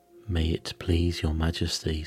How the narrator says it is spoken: said Two, in a very humble tone

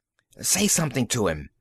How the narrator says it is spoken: Magnan hissed

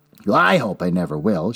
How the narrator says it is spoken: she answered

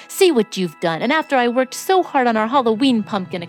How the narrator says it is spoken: exclaimed Antone

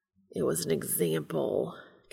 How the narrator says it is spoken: Castiel growls

